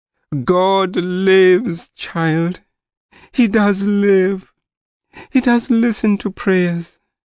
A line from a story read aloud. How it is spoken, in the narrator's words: she sobbed